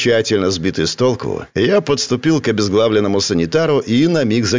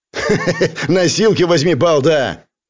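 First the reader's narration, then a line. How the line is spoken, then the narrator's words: Angry laughing gunman. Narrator (Russian): Зло рассмеялся автоматчик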